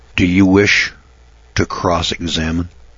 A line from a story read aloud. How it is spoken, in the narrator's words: Judge Davis said in a calm but triumphant tone